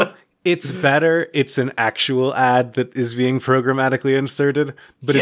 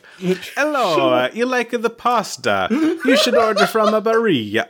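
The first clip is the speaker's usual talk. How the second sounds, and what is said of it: Bad put-on Italian accent, Mario-like. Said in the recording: “doing a Mario impression ... a guy putting on a very bad Italian accent”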